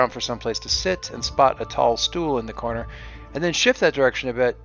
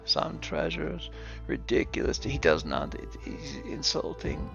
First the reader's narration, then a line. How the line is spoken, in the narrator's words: Leif is often muttering to himself